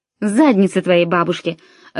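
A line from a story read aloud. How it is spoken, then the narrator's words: Angry. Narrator (Russian): зло проговорил Тимоти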